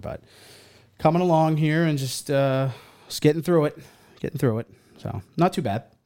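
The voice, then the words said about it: Voice affected by a cold. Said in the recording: “As you can probably tell by my voice, I'm kind of battling a cold here”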